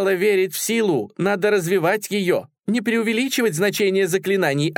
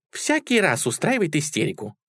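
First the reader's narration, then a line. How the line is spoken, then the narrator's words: Calm. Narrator (Russian): спокойно говорит Тик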